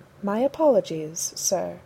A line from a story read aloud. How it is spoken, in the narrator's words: Jarvis replied in his primest tone